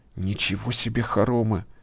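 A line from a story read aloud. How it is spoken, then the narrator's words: Admiring whisper. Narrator (Russian): восхитился Юра шепотом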